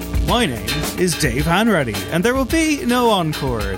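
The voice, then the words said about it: Mock hip young radio presenter voice. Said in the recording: “a disastrous attempt at a robot voice or some kind of, I don't know, some kind of hip young music host ... you sound like the presenters that slightly irritate me”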